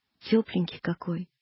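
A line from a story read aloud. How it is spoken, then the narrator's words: Tender. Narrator (Russian): ласково сказал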